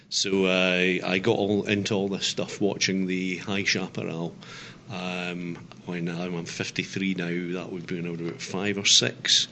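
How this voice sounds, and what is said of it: Scottish accent. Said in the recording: “The accent might give that away. I'm originally Scottish.”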